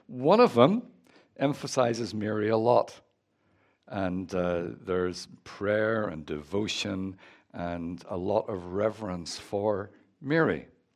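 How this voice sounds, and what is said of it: Northern Irish accent. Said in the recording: “As you can tell from my accent, I'm from Northern Ireland.”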